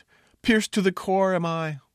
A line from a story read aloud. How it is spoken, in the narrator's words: gasped